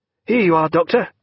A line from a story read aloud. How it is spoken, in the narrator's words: cried Pullings